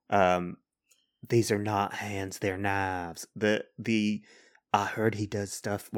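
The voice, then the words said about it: Put-on Texan accent. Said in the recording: “Why am I giving Teresa Texan accent?”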